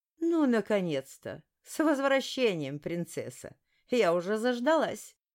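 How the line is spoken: Caustic woman's voice. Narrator (Russian): едко произнесла бывшая ректорская ведьма

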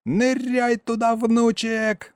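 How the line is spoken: Old man yelling. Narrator (Russian): заорал дед

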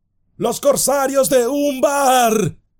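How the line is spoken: Group shouting. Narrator (Spanish): gritaron

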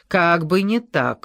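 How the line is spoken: Barked. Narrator (Russian): рявкнул

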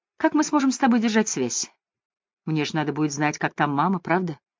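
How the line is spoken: Cheerful tone. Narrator (Russian): бодрым тоном сказала

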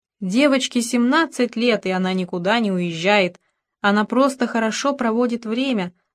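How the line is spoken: Plain. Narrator (Russian): сказала Мюриэль

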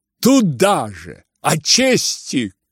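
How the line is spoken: Angry shout. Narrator (Russian): крикнул он злобно

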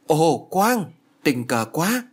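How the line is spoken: Joyful exclamation. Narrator (Vietnamese): reo lên

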